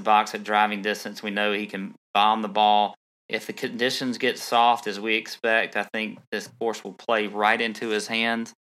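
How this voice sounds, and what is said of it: Strong country accent. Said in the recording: “Your accent is so country that it sounds like British ... you eliminate the L”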